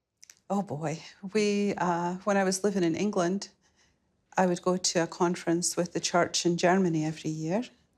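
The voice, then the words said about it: Scottish accent. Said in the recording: “a beautiful Scottish lilt”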